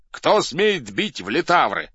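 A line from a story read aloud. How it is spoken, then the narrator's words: Shouted. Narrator (Russian): закричал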